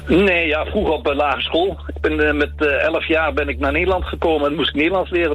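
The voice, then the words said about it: Lasting foreign accent in Dutch. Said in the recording (Dutch): “nu je zo aan het praten bent, hoor ik het ook wel ... Het gaat er nooit meer uit ... je accent”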